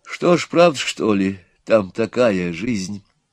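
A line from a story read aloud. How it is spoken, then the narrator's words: Quiet question. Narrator (Russian): спросила Нюра тихо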